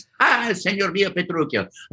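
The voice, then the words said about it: Italian-accented theatrical character voice. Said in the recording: “Gremio in Taming of the Shrew ... nice Italian guy. Spoke like this. ... do that voice”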